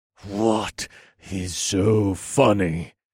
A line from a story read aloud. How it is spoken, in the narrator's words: I asked through gritted teeth